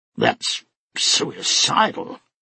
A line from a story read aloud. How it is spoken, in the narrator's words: Gustar muttered